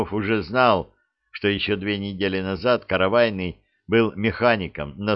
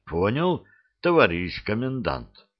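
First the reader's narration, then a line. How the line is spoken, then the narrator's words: Embarrassed mumble. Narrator (Russian): смущенно пробормотал каравайный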